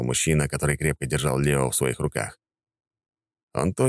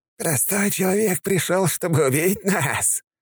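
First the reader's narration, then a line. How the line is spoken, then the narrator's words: Maniacal laughter. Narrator (Russian): Рассмеялся, как безумный Харгот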